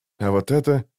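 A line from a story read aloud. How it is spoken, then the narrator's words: Whisper. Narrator (Russian): прошептал он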